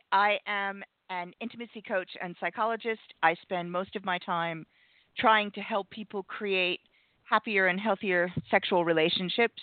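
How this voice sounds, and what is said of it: Non-British foreign accent. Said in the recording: “you can probably tell from my accent I'm not here from here originally”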